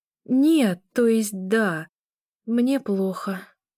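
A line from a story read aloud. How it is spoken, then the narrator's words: Strained, forced out. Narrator (Russian): выдавила из себя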